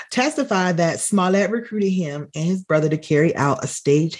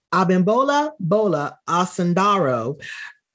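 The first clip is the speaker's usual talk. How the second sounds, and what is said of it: Put-on accent pronouncing a name. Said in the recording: “get into my accent, yeah, I banged that”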